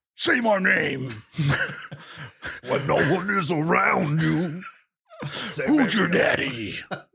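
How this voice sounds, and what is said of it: Gruff Batman character voice. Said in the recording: “you got to put on his Batman voice”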